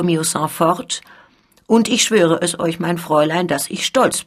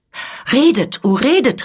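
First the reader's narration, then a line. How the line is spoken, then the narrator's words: Delighted exclamation. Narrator (German): rief die Scuderie, indem ihr die Augen glänzten vor Entzücken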